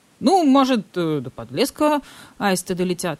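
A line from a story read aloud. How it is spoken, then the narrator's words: Uncertain count suggesting. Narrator (Russian): неуверенно предположил граф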